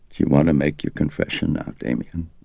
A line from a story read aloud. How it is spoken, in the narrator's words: Fighting back the tears, Dyer leaned down closer, and putting his mouth next to Karras's ear, he asked softly